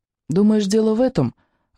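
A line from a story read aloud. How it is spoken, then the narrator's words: Timid, secretly proud question. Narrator (Russian): робко спросил он, втайне гордясь, что в нем открылись такие неведомые глубины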